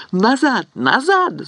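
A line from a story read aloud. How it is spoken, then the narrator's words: Shouting. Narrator (Russian): закричала Рипли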